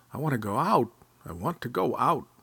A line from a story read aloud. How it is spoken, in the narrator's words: Badger was groaning all the time and said